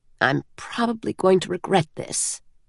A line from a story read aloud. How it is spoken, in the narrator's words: he muttered to himself